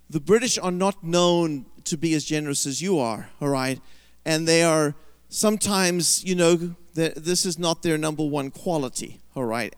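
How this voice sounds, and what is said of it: British accent. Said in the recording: “I have that British accent”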